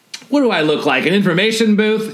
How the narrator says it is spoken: He snaps back at you

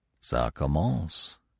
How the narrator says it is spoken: he murmured

